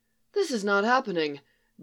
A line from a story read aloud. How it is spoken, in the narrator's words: Barry muttered